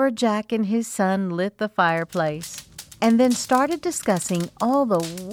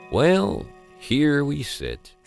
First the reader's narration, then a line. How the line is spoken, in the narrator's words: said the lumberjack as his tummy rumbled in hunger